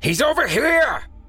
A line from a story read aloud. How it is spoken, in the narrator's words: the man in the suit shouted